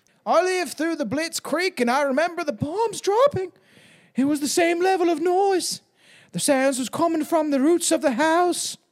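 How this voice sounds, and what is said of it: Attempted British accent. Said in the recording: “doing a British accent ... that was a bit better ... that was actually a little bit better, to be fair.”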